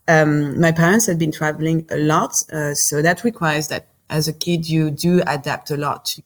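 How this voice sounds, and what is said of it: French accent in English. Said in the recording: “I'm French, so I'm don't laugh, Simon. Yeah, so I do not believe that I have an accent, but I heard I do have one.”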